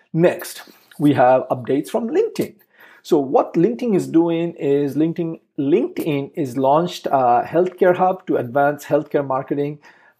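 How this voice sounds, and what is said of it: Thick accent. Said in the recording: “I happen to have a thick accent”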